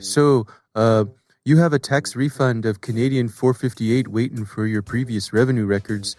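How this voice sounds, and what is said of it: Put-on Canadian accent. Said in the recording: “you must do a Canadian accent, eh?”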